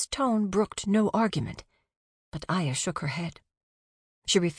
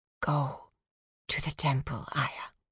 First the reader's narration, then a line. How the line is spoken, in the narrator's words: whispered